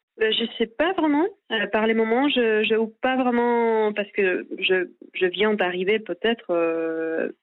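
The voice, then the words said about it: Spanish accent speaking French. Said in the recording (French): “avec cet accent espagnol”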